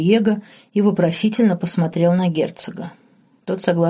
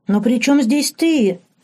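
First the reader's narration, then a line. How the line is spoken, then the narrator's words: Emotional exclamation. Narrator (Russian): эмоционально воскликнул Саш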